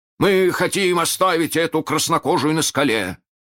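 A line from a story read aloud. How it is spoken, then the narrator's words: Shout. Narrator (Russian): крикнул Неряха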